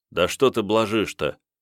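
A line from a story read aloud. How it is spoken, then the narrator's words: Calm. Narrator (Russian): спокойно промолвил Степан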